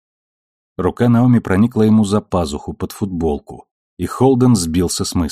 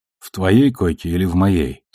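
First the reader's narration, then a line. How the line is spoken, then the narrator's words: Plain. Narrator (Russian): спросил он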